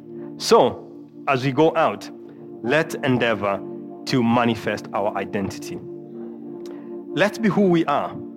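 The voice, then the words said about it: Strong accent. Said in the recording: “my accent is too strong for them”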